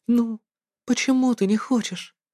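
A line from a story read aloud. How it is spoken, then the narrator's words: Weary faint whisper. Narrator (Russian): Устало едва шевеля немеющими губами, я прошептал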